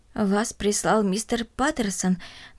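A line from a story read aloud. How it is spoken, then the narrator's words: Trembling old woman asking. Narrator (Russian): дрожащим голосом спросила бабушка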